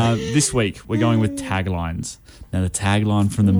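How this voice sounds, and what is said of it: Usual voice. Nothing is said of it.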